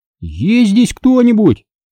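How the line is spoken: Shouted. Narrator (Russian): крикнул я

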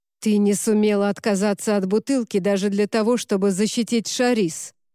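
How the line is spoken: Growled. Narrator (Russian): прорычал

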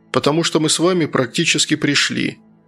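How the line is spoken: Matter-of-fact tone. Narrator (Russian): обыденным тоном сообщил Антон

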